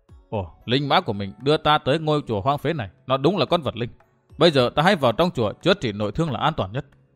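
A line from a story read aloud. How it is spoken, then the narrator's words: Muttering to himself. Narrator (Vietnamese): Thạch Kiếm Cửu lẩm bẩm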